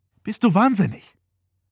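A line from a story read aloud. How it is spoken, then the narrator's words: Panting. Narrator (German): keuchte Sam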